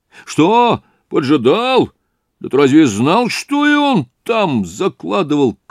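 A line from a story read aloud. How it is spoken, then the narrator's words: Shouting. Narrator (Russian): крикнул Разумихин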